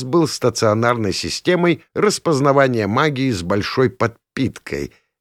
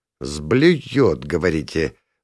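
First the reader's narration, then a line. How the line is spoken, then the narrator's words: Thoughtful drawl. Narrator (Russian): задумчиво протянул я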